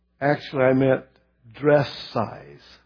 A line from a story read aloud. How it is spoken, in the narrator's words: She groaned